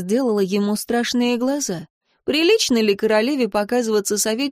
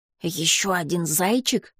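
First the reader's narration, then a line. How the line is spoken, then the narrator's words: Whisper. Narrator (Russian): шепнул Дар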